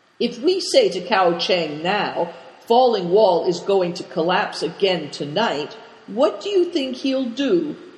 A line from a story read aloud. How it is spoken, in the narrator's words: asked Christian